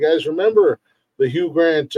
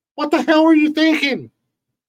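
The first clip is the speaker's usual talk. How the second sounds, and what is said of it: Poor Jay Leno impression. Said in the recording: “It was a terrible Jay Leno impersonation”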